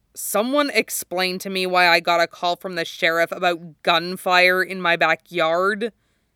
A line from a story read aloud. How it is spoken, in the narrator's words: he snaps